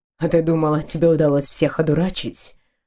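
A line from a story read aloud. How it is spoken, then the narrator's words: Whisper right in ear. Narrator (Russian): прошептал он, склонившись к самому уху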